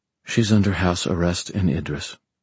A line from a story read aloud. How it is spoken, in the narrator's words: Aline said quietly